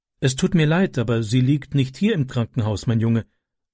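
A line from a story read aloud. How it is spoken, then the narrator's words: Plain. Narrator (German): sagte sie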